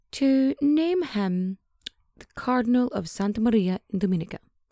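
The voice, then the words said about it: Put-on accent on Italian name. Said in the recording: “Sorry for the accent, I can't help myself.”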